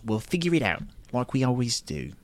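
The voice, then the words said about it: Poor imitation of a character's voice. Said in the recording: “that was a terrible Omega impression ... it was pretty bad.”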